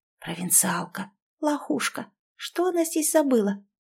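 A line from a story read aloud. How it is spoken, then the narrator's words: Loud audible whisper. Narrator (Russian): Шепот был достаточно громким, чтобы я могла все расслышать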